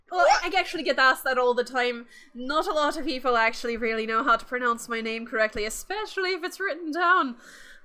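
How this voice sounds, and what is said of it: Irish accent. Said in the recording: “I love how I say y'all in an Irish accent.”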